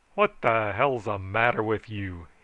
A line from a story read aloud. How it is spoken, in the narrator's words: he roared